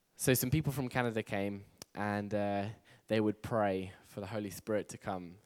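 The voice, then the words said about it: English accent. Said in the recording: “I'm from England, by the way. Who couldn't tell by the accent? ... Who couldn't tell that I was English? ... I'm very keen to keep my English accent”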